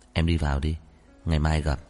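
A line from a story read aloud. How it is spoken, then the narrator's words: Gentle, smiling. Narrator (Vietnamese): Trần Chi Nghị vẫn cười như cũ, dịu dàng nói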